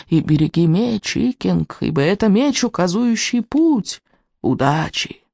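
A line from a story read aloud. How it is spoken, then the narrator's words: Tearful old man mumbling. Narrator (Russian): Старик со слезами на глазах бормоча себе под нос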